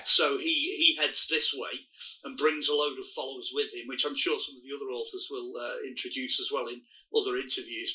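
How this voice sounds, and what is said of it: British accent. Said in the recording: “people can tell by your accent ... you mean Britain”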